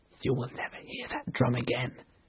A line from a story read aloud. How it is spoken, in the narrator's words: he whispered